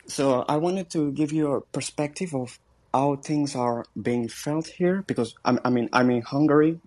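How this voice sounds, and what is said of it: French accent in English. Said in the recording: “forgive me for my English and my accent, because I'm a French”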